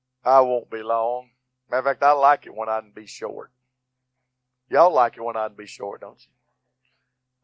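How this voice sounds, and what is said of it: Worn-out, nearly lost voice. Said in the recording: “My voice is almost gone. Praying takes my voice away.”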